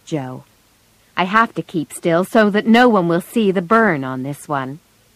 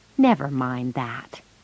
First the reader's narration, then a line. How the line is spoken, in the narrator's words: he said gently